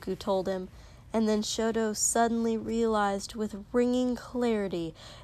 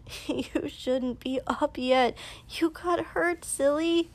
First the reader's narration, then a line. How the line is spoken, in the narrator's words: Izuku laughed ... and mumbled